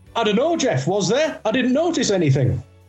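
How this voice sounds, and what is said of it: Imitates another person's voice. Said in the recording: “That was a superb impression of it.”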